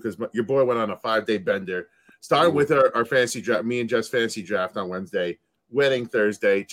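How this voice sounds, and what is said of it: Raspy, hoarse voice. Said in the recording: “my voice is probably a little raspier than normal, too”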